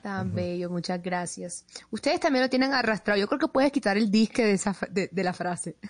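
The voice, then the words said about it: Drawling Barranquilla Colombian accent. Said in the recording (Spanish): “siempre me ha encantado el acento barranquillero ... como ese arrastradito”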